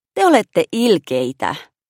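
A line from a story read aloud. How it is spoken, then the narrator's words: Sighed. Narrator (Finnish): Maša huokaisi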